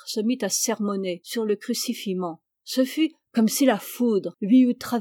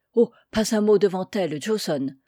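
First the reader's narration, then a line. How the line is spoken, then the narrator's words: Low pleading guard. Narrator (French): supplia le garde à voix basse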